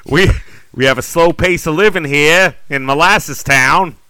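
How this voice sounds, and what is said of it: Put-on Boston accent. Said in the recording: “with a Boston accent”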